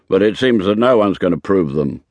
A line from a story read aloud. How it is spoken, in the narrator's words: said irritably